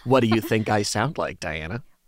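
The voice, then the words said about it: Imitates another person's voice, mean-sounding. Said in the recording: “give the listeners your impression of me ... Oh, that sounded so mean. Do I sound like that?”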